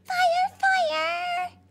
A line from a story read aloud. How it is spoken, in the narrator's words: squeaked Sugar Glider